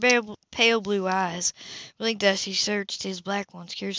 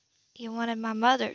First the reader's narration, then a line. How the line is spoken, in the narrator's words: she accused miserably